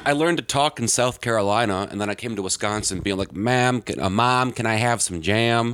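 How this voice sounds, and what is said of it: Very fast speech, mixed vowel sounds. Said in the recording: “talking like I do now, which is really fast and with like just a mishmash of vowel sounds happening all over the place”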